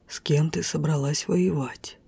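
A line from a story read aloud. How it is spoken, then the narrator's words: Quiet male whisper. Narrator (Russian): тихий шепот мужчины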